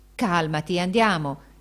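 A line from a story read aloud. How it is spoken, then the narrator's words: Exclaimed. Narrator (Italian): esclamò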